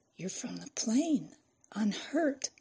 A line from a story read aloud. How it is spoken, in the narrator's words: Fran's eyes widened as she whispered